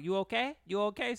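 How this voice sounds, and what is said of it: Put-on Asian accent. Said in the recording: “Sorry for my Asian accent.”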